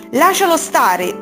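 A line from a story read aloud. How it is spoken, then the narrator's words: Brave yell. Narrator (Italian): urlò coraggiosa Rosarossa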